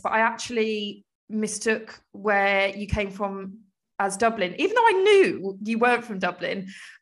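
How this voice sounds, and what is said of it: Southern English accent. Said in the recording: “my accent ... the southern English accent”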